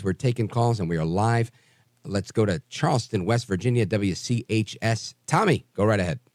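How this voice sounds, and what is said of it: Raspy voice. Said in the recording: “raspy voice”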